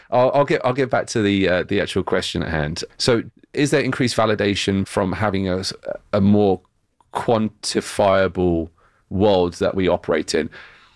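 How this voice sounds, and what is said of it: British accent. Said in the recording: “it's my British accent that makes me sound more”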